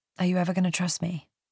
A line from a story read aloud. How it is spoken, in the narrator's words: Henry says quietly